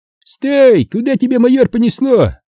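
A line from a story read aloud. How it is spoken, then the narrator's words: Group shouting. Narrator (Russian): кричали мне беслановцы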